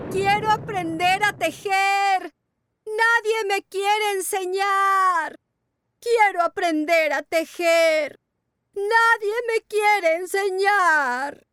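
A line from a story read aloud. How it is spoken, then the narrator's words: Incessant shouting. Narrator (Spanish): gritaba de día y de noche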